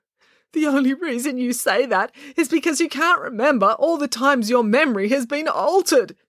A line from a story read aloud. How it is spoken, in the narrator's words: shouted Dad